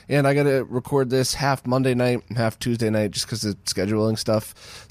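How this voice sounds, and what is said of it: Strained, partly lost voice. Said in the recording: “lost my voice screaming at the top of my lungs ... my voice is a little worse than usual”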